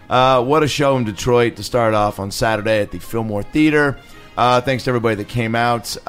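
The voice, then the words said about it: Hoarse, worn-out voice. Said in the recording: “Can you tell? My voice is already a little shot.”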